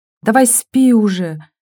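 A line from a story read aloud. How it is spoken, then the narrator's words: Moaning. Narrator (Russian): простонала Вера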